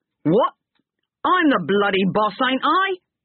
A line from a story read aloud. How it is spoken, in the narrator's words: said Harry, angrily